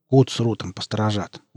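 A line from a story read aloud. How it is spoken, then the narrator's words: Smiling. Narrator (Russian): улыбнулся он Нарку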